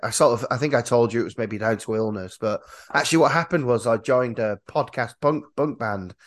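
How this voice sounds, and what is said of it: Hoarse, husky voice. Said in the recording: “lost my voice a little bit ... because of all this loud shouting, I've got a delightfully sexy voice”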